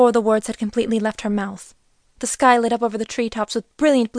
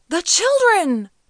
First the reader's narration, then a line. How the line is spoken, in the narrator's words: the farmer cried